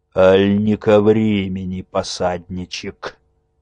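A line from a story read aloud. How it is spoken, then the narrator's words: Muffled, gloomy, hateful question. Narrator (Russian): Сумрачно глядя на Незду ненавидящими глазами, спросил глухо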